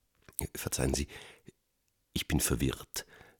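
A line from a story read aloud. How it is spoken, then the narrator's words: Quiet, hesitant address. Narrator (German): spricht er die Wirtsleut leise an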